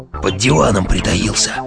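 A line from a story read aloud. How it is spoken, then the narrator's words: Whisper. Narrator (Russian): прошептал он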